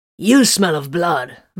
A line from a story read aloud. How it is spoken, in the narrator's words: Byron growled